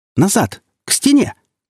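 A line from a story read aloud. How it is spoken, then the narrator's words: Shouting. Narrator (Russian): крикнула Ружина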